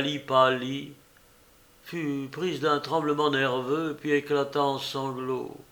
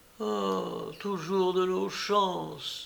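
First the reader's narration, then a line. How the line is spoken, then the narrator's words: Mother moaning. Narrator (French): gémit la mère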